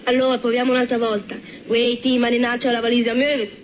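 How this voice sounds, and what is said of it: Milanese dialect, cannot pronounce R. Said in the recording (Italian): “dialetto milanese e lei che parla con lo gnocco in bocca ... come mai gli manca la R?”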